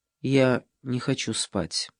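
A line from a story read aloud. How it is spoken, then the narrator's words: Quiet. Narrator (Russian): Ева тихо сказала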